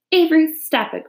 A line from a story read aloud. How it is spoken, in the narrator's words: cried his mother